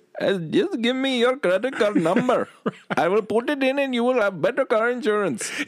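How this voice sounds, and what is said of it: Put-on foreign accent. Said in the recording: “that's the way he sounded ... if you're so sensitive that you can't hear an accent”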